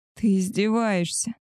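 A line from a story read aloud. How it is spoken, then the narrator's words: Groaning. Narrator (Russian): простонала я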